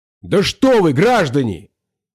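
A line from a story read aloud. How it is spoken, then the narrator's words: Loud shout. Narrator (Russian): закричал я громко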